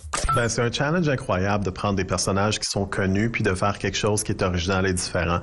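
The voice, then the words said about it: Slight Québécois or Canadian French accent. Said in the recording (French): “il est québécois? ... Il a un petit accent, non? ... Ou en tout cas canadien.”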